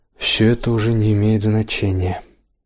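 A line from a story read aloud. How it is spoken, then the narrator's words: Trembling voice. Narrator (Russian): он произнес дрогнувшим голосом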